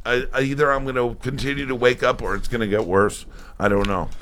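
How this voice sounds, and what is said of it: Strained, struggling morning voice. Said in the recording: “My voice is struggling a little bit.”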